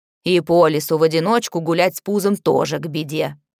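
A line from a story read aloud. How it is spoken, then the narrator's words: Old woman barking. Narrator (Russian): рявкнула старуха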